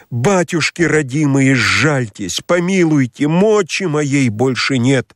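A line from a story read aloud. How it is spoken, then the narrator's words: Trembling desperate cry. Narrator (Russian): Весь дрожащий, воскликнул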